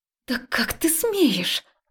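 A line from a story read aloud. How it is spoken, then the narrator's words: Hissed like a snake. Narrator (Russian): прошипела змеёй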